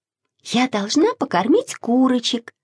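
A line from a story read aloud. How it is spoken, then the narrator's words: Plain. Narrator (Russian): сказала Маша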